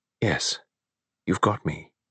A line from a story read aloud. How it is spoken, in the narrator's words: She said gently